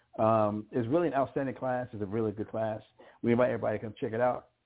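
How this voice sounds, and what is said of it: High-pitched, fast-speaking voice. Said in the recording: “my high-pitched, fast-speaking voice”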